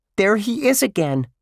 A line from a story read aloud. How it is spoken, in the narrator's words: Josh shrieked